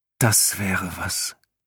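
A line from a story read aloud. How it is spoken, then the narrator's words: Sigh. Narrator (German): seufzte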